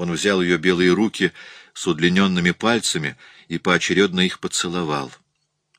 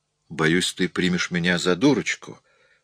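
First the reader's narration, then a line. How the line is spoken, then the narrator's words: Quiet. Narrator (Russian): произнесла она все так же тихо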